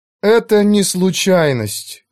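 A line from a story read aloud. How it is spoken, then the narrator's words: Gloomy. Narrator (Russian): мрачно сказала Клара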